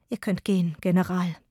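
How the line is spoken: Weak-voiced queen. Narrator (German): sagte die Königin mit schwacher Stimme

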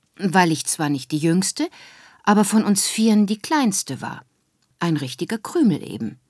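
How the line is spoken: Plain. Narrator (German): sagt Mama

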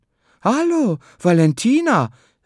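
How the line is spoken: Surprised call. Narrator (German): rief sie überrascht

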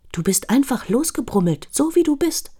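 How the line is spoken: Very gentle. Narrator (German): sehr sanft und sagt

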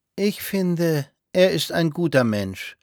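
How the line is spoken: Soft drawl. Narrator (German): sagte Clotilde sanft und gedehnt

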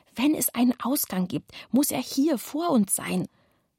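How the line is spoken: Whisper. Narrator (German): flüsterte Kevin

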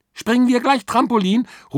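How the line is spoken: Calling after someone. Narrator (German): ruft Kira ihm hinterher

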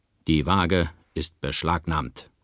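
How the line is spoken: Stern captain. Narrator (German): sagte der Hauptmann streng

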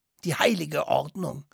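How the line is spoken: Hissing interruption. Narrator (German): unterbrach Herr Gosch ihn zischend

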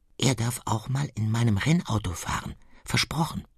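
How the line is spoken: Whispered. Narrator (German): Sein Bruder flüstert

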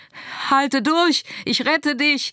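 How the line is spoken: Shouting. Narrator (German): schrie Lennart

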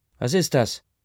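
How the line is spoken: Calling out. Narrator (German): ruft eine Stimme neben Ma

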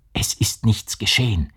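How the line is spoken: Whispered. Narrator (German): flüsterte

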